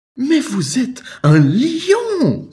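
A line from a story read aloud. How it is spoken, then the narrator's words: Exclaiming. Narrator (French): s'exclama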